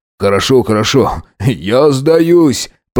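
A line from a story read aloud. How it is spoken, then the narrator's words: Groaning. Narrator (Russian): простонал он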